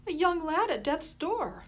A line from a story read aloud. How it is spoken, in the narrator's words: Molly exclaimed